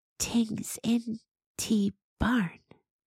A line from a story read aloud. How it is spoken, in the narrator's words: Gotina whispered